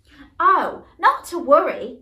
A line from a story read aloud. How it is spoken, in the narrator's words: exclaimed Michael